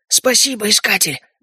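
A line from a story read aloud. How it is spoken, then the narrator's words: Hoarse wheeze. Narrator (Russian): прохрипел он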